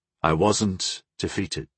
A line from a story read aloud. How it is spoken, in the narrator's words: Gol said quietly